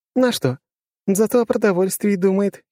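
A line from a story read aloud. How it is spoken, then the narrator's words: Giggling. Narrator (Russian): хихикает Алисия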